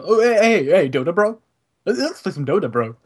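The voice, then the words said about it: Impression of a friend. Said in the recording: “If you want to do an impression of Maddie”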